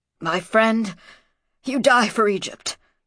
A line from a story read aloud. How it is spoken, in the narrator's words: gasped Sheftu